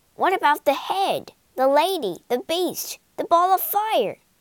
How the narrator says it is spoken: cried the friends

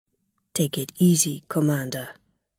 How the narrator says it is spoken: he said quietly

